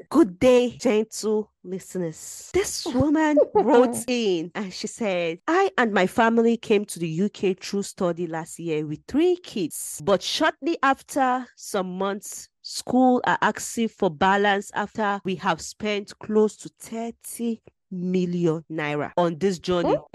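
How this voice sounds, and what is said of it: Careful, enunciated reading voice. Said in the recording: “my reading voice ... Just enunciate well”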